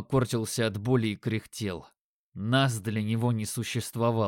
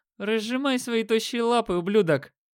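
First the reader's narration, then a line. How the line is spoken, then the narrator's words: Loud shout. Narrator (Russian): Громко крикнул покоцанный блондин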